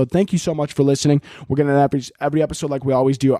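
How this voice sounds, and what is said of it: Talking very fast. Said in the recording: “sorry I'm talking so fast”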